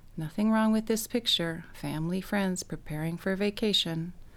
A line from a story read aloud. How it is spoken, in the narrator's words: I told myself weakly